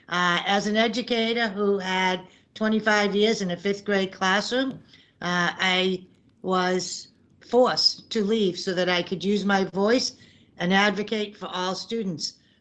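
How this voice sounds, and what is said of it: Natural regional accent. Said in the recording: “thank you for noticing the accent ... Is that accent something you had to practice, or do you just get it naturally? ... It's natural.”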